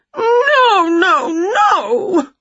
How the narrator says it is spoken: wailed Winnie even louder

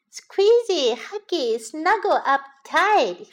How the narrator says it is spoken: he said happily

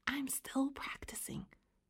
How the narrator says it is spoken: she whispered

